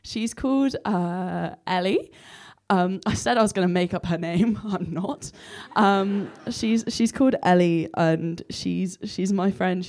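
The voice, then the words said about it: Hoarse, croaky voice. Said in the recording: “Sorry about my voice ... I look and sound like a frog”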